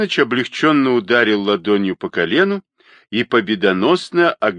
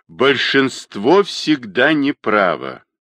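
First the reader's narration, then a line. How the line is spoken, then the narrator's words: Distant grumbling. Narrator (Russian): проворчал из угла чернокнижник Груздев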